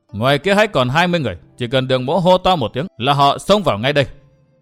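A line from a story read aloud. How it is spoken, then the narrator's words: Cold. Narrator (Vietnamese): Đường Hán lạnh lùng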